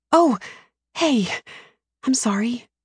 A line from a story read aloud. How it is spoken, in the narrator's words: I whisper